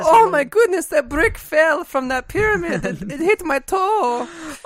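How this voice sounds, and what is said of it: Put-on Italian-sounding foreign accent. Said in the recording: “Why are your Egyptians Italian? ... Just a foreign accent.”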